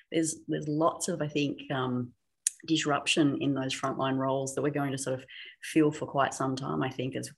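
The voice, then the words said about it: Non-American, likely Australian accent. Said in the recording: “most people can tell by your accent that you are, you know, not an American”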